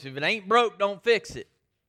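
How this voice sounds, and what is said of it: Put-on Southern US accent. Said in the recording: “in his best southern voice”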